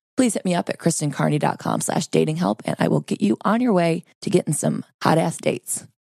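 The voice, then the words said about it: Hoarse, sore-throat voice. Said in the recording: “Forgive my voice. I've got a sore throat.”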